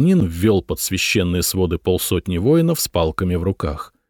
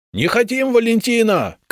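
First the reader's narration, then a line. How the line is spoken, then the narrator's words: Shouted from crowd. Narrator (Russian): крикнули из толпы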